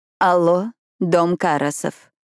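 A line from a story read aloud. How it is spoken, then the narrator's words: Quiet, Greek accent. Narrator (Russian): прозвучал тихий голос с греческим акцентом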